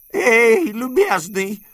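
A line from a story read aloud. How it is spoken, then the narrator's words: Exclaiming. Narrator (Russian): воскликнул дядя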